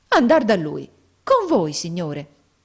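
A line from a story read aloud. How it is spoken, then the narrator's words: Exclaiming. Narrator (Italian): esclamò Nicola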